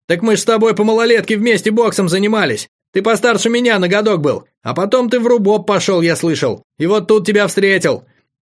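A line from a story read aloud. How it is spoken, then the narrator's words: Joyful rapid chatter. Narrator (Russian): радостно затараторил Федор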